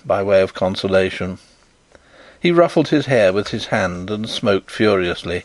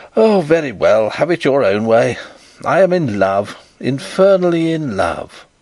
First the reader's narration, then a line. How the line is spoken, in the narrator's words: flinging himself on a sofa, he exclaimed